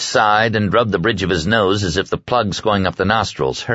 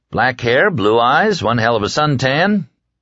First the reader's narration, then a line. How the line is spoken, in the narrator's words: Smoothly, as if rehearsed, Dietz said